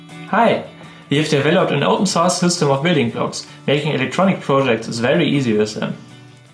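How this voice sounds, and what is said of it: English with strong German accent. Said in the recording (German): “sie haben einen sehr deutschen Akzent.”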